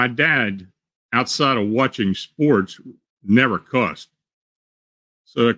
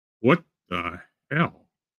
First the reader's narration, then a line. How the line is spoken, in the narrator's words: Under his breath, he said